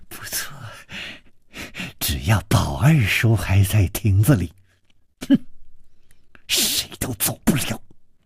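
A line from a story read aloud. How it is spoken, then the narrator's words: Malicious smile. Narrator (Chinese): 施少奶奶的嘴角也泛起了一丝恶意的微笑，说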